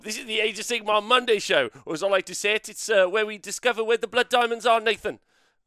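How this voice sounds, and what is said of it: Put-on Zimbabwean accent. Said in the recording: “this accent that slowly is like, hey, did you forget about me? I'm accent herpes ... I'm only doing this accent because of the horrifying movie Blood Diamond ... the guy's from Zimbabwe”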